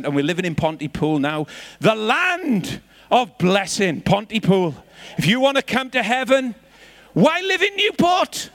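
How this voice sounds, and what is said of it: Welsh accent. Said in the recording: “I've got a bit of an excuse for my Welsh accent”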